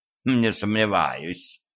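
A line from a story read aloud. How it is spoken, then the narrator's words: Snorting hmph. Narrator (Russian): хмыкнул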